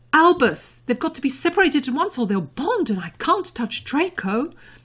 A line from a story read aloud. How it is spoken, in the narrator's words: Mother said quickly to him